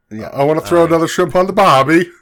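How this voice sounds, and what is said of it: Put-on Australian accent. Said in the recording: “Austria or Australia? ... I just want to make sure what accent we were dealing with here ... you're going to be doing an accent”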